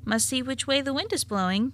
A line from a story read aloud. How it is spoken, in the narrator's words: said, chuckling over his little joke